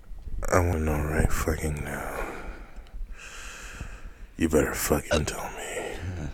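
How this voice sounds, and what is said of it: Sultry sex-hotline style voice. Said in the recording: “This is not a sex hotline. You can't. Don't give him that voice.”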